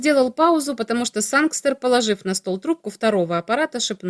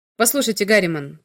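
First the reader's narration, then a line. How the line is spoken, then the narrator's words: Hurried speech. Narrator (Russian): торопливо заговорил Грэхэм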